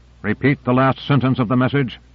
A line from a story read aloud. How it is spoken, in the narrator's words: He barked into the transmitter